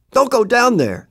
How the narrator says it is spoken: the man shouted out suddenly

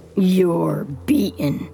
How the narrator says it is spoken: the bullet catcher growls

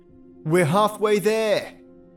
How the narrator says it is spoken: shout

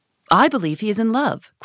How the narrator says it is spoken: cried Lady Narborough

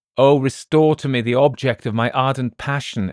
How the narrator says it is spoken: exclaimed Walter with impetuous eagerness

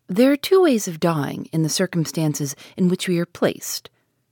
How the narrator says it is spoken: he said calmly

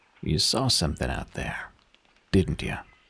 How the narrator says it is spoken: he asked gravely

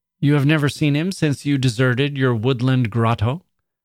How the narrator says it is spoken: I said

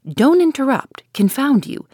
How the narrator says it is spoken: shouted Ash

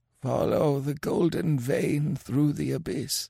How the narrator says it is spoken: muttered Kemsa

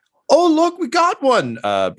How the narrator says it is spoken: Hildegard just yells

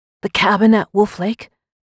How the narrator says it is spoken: I said, my voice strained

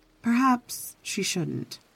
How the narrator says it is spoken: she said softly

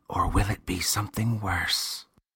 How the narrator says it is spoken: The boy whispered

